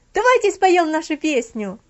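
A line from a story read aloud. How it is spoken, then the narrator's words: Shouting. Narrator (Russian): обязательно находился один, который кричал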